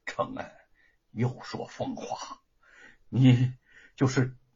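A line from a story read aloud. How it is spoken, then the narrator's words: Choked with tears. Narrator (Chinese): 张氏哭得哽咽，说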